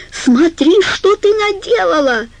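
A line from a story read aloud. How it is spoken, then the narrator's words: Almost triumphant shout. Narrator (Russian): закричала Карла почти торжествующе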